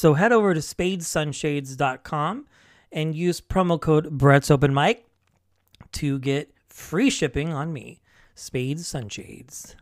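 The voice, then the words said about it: Attempted cool radio announcer voice. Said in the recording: “That's my attempted cool radio voice.”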